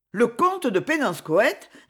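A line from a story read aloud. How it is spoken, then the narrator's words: Astonished tone. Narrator (French): répéta Madame d'Ourzen d'un ton de stupéfaction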